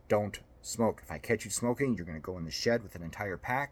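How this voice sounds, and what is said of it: Stern dad character voice. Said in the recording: “dad voice”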